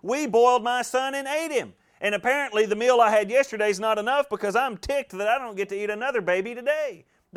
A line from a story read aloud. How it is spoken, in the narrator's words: she's hollering out at him